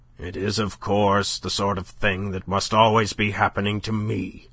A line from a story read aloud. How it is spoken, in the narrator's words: grumbled to no one in particular